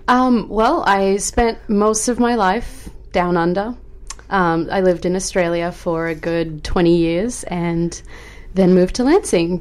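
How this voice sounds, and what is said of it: Noticeable foreign accent. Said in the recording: “you've got a beautiful accent ... such a gorgeous accent”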